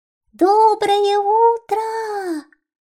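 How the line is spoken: Little mouse's all-out shout. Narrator (Russian): Изо всех сил крикнул мышонок

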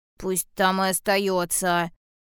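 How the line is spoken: Angry, childlike. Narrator (Russian): сердито сказал медвежонок

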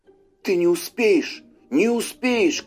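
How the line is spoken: Shouted. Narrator (Russian): крикнул он встречному

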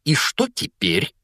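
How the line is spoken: Hateful, angry question. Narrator (Russian): злобно спросила тетя Петунья, с ненавистью

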